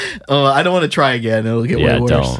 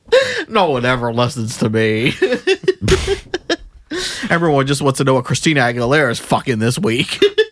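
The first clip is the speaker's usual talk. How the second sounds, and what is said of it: Imitates another person's voice. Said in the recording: “I don't know how bad of an impression that is, but it sounds terrible. I just don't know what he sounds like. ... I feel like it's close.”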